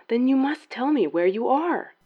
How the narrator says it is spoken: the Cardinal pleaded

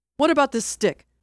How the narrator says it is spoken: Barnes yelled

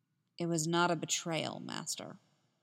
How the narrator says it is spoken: Anakin spoke in a calm voice

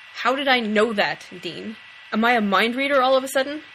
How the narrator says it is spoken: Sam growled

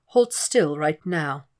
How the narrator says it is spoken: says calmly

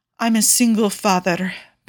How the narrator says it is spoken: Paolo purrs

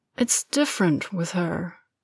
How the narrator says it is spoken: Harry says, but his voice has gone quiet

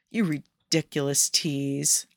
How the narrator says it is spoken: under his breath

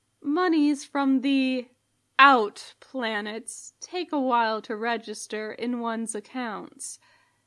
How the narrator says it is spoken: the manager says calmly

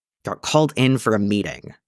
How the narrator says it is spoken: Jason snarled

